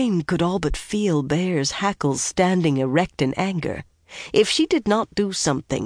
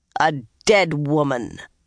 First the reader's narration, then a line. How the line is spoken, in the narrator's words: Bear said coldly